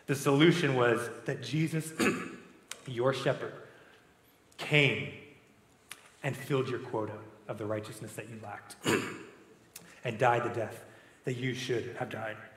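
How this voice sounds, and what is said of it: Hoarse, strained voice. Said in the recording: “I'm losing my voice ... I probably need some water”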